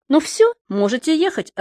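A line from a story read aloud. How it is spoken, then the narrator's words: Joyful. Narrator (Russian): радостно сказал мне господин Торкио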